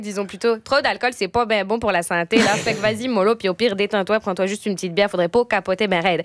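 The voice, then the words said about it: Put-on Québécois French accent. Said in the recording (French): “avec l'accent québécois, tout est mieux”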